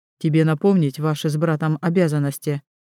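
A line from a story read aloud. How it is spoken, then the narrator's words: Cold question. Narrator (Russian): холодно спрашивает Вейлин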